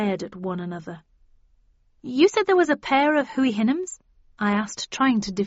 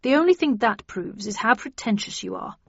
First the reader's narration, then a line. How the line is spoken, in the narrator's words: muttered Perkins